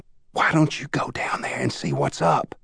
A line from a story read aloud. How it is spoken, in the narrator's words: She whispered to Paul